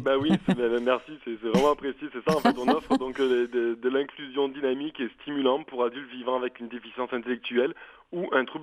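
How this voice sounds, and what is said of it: Southern French Provençal accent. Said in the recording (French): “votre délicieux accent, il vient du sud de la France ... de la Provence”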